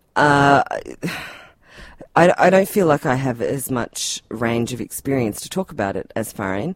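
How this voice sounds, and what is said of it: Tasmanian Australian accent. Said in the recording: “you can probably tell from my accent that I'm not from a developing country. ... Oh, Tasmania.”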